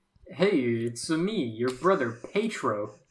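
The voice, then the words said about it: Quicksilver impression. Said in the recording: “do a good quick silver impression”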